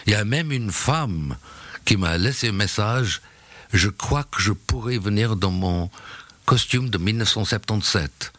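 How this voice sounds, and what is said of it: Slight British accent in French. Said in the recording (French): “avec un petit accent british, hein, vous l'aurez peut-être noté”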